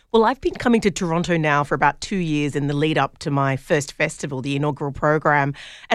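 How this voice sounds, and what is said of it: Speaker with a noticeable accent. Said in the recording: “listen to that accent.”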